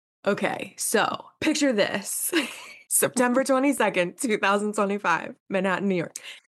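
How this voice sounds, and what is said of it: Raw, tired voice. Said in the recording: “My voice is raw.”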